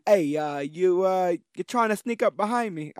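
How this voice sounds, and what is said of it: Poor British-Brooklyn put-on accent. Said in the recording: “I'm doing a terrible voice. Now I'm doing like a British Brooklyn voice, which is terrible.”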